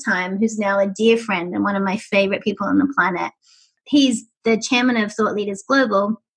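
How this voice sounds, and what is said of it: Accented, very young-sounding voice. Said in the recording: “having an accent helps ... I sound like I'm five”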